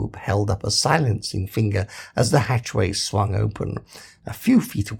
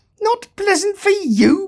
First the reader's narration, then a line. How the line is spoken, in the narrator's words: bawled Zaphod